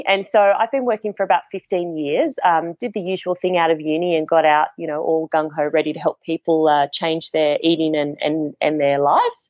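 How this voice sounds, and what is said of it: Australian accent. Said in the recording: “as your listeners would have picked up by my accent already, I'm based in Australia”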